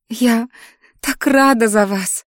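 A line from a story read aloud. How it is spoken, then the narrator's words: Sobbing friend. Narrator (Russian): всхлипнула подруга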